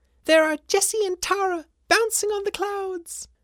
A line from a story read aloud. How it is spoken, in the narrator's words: cried Miko